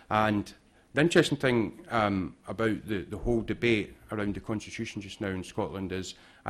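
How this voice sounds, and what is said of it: Scottish accent. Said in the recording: “You could probably guess by my accent that I take a particular interest in what's happening in Scotland.”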